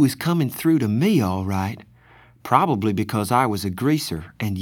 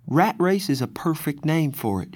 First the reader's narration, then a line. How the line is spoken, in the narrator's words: she said